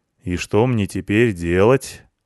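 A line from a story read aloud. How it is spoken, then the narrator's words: Gloomy question. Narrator (Russian): мрачно спросил трактирщик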